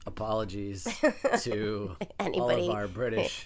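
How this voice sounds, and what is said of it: Exaggerated fake British accent. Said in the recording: “has decided to do the entire podcast in a British accent. ... We got a little Dick Van Dyke on you there for a sec.”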